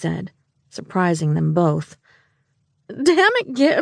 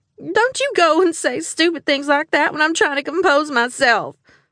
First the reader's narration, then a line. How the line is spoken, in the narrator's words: she wailed